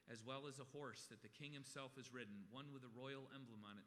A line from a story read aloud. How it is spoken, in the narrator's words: said